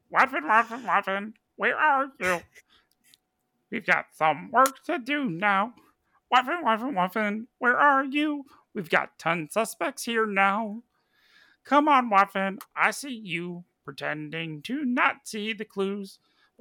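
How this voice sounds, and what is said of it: Gurgling fantasy creature voice. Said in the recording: “Can do it in a Murloc voice? ... Oh, can I do it in a Murloc voice? I can try. Let me try.”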